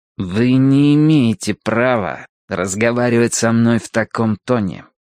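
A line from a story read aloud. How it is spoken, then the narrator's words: Through gritted teeth. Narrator (Russian): процедил Гилкрист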